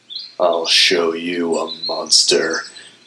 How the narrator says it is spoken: Igneous growled

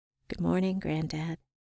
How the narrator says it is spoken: Under my breath, I said

